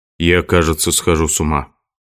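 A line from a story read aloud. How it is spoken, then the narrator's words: Weary. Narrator (Russian): Лорре и, устало опустившись в кресло, сказал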